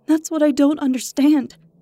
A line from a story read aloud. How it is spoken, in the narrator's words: she exclaimed